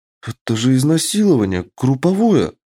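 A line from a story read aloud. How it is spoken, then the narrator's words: Horrified exclamation. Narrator (Russian): В ужасе воскликнула Лана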